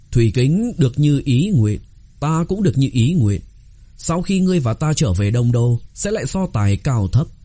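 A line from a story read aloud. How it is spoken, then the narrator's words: Smiling. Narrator (Vietnamese): Tiết Thanh Phủ mỉm cười nói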